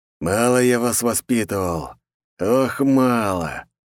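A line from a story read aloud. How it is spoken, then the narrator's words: Through gritted teeth. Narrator (Russian): сквозь зубы сказал волчара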